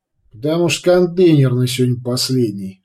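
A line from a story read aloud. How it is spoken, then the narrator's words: Driver chuckling. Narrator (Russian): хохотнул водитель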